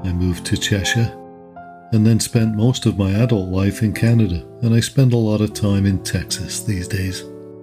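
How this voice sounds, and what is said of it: Liverpool accent. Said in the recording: “my accent is a bit of Liverpudlian or Wirral ... there's a certain twang on certain words ... As for my accent, well, you guessed it, I was born and raised in Liverpool.”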